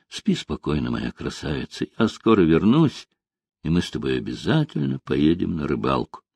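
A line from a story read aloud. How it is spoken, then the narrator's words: Quiet tender. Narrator (Russian): Он тихо произнес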